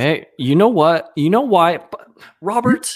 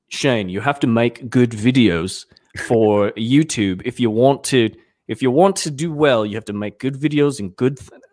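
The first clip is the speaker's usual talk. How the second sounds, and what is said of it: Imitates another person's voice, unclear accent. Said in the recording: “I try to do Paul. ... I don't even know what accent that is anymore.”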